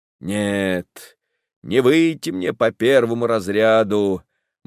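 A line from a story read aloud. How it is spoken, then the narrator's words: Gloomy, resigned. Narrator (Russian): мрачно решает Александров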